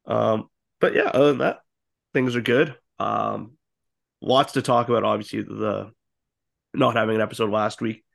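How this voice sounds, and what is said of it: Sick, hoarse voice. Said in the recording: “I have a bit of bronchitis right now, so there might be a little bit of coughing. You can probably tell my voice is a little different”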